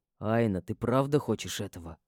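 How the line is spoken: Plain. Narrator (Russian): спросил мой брюнет

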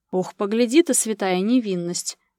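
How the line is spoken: Skeptical snort. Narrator (Russian): недоверчиво хмыкнул Гера

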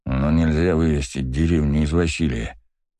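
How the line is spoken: Muttered under breath. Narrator (Russian): пробормотал Влад себе под нос

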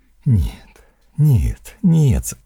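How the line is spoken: Moaning. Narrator (Russian): застонал Батист

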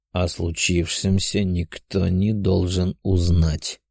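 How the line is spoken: Calm but demanding. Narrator (Russian): спокойно, но в то же время требовательно сказал мне принц Ада

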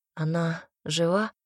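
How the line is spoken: Timid question. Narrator (Russian): робко спросила Ярослава

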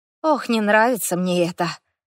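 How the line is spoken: Grumbling. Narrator (Russian): пробурчала я

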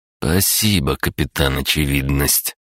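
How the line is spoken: Mocking, through gritted teeth. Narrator (Russian): процедил Андрей и передразнил ее

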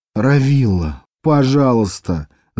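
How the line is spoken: Moaning. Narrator (Russian): застонала Этта

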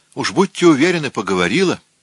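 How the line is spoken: Short laugh. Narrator (Russian): коротко рассмеялась она

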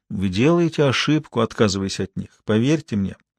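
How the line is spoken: Quiet, after a groaning sigh. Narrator (Russian): Посетитель со стоном вздохнул и тихо сказал

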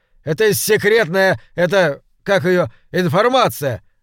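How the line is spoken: Stumbling, confused shout. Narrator (Russian): закричал второй, запутываясь в словах

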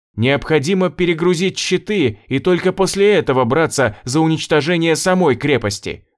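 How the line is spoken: Shouted while stunned. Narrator (Russian): заорала Элли, когда в очередной раз ее оглушило

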